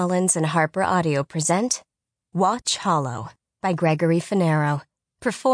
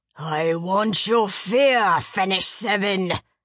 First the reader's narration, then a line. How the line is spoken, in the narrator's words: bellowed